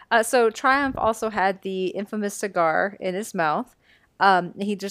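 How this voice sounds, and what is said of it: Usual voice. Nothing is said of it.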